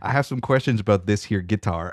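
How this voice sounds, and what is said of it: Weak put-on Southern accent. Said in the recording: “I don't even have a good Southern accent.”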